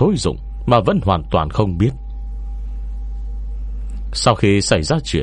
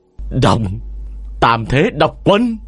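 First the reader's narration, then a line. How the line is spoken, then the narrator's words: Woman's loud shout. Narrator (Vietnamese): đạo cô hét lớn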